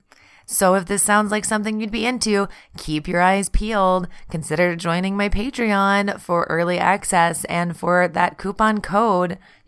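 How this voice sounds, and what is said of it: Hoarse voice from a cold. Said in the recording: “I had a cold and was losing my voice”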